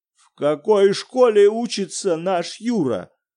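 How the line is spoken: Asking in a terrible voice. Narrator (Russian): спросил Виктор Петрович ужасным голосом

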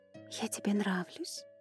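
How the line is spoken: Flirtatious whisper, girl. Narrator (Russian): в шепоте девушки звенело кокетство

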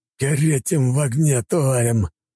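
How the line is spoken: Hissed. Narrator (Russian): прошипел поляк

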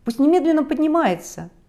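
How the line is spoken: Excited exclamation. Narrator (Russian): Волна воодушевления захлестнула меня, и я воскликнул

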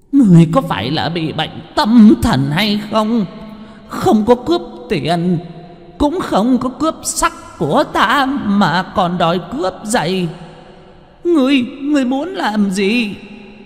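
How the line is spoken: Old woman shrieking. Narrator (Vietnamese): Lão bà tử rít lên

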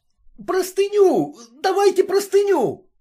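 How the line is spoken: Shouting. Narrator (Russian): кричал Самоплясов

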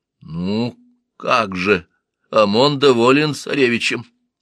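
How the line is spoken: Prophet mumbling. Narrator (Russian): промямлил пророк

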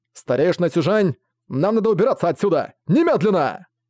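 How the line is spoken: Shout. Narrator (Russian): прокричал Ван Буэлэ

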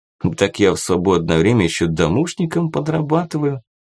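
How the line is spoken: Calm explanation. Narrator (Russian): спокойно объяснил Кирилл

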